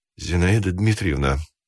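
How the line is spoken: Muffled voice. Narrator (Russian): начал он глухим голосом

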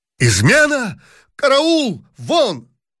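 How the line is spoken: Emperor shouting. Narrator (Russian): закричал император

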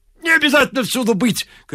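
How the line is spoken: Shouting. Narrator (Russian): кричал Ляпис

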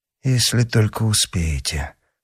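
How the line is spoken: Muttered. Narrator (Russian): пробормотал герцог

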